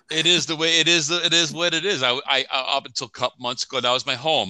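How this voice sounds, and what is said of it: New York (Long Island) accent. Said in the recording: “I know the accent. I you know, my mom has a very strong New York accent”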